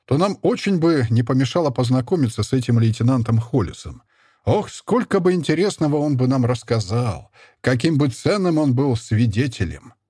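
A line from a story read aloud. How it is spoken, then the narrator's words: Said after laughing. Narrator (Russian): первым перестав смеяться, сказал Богданов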